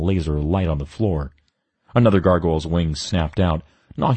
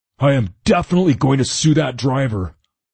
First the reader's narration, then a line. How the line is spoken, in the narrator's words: Gunner bellowed